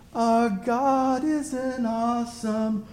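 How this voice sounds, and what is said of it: Soft-spoken boy band style singing. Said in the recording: “all kind of soft-spoken ... I'm probably exaggerating how like boy bandish his voice was”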